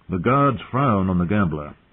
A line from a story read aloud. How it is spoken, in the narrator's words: Sir Roderick said sternly